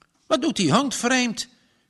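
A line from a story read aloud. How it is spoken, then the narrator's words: Plain. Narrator (Dutch): zei de boer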